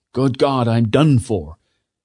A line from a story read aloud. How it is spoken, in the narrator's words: Lieutenant Duddingston, her commander, cried out